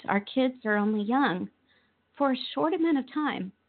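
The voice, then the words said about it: Choked-up, emotional voice. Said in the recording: “getting choked up now”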